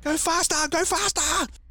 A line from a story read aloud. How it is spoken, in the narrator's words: Smudge is screaming